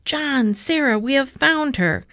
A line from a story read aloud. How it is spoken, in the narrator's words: the shouts of the crowd